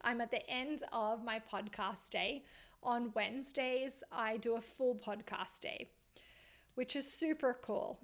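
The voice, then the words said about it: Slightly strained voice. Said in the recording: “my voice is a little strained”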